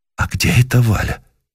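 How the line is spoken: Quiet. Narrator (Russian): спросил он тихо

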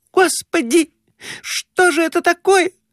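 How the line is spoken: Shrieking. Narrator (Russian): Взвизгнула Глафира Семеновна

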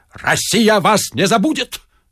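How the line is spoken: Barking. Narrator (Russian): рявкнул Остап

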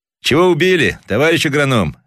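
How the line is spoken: Hoarse shout. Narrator (Russian): хрипловато крикнул один

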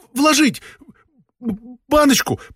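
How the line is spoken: Babbling mumble. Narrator (Russian): пролепетал Остап

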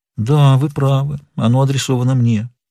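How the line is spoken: Sad. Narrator (Russian): печально кивнула головой и сказала

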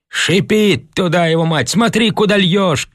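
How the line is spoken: Shout. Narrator (Russian): крикнул кто-то

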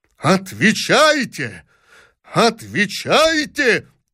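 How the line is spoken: Terrible furious shouting father. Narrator (Russian): топая ногами, страшным голосом кричал принц-родитель

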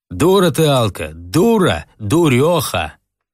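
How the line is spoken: Loud speech. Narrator (Russian): Толстая громко говорила

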